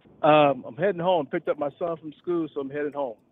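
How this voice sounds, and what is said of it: Southern American accent. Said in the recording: “I like a good old Southern accent.”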